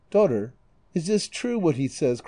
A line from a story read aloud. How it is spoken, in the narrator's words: cried the Moor